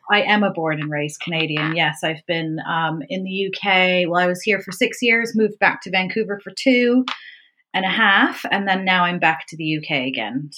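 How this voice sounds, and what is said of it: Canadian accent. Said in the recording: “very much Canadian, as you can probably tell from my accent ... I can hear a tiny little accent.”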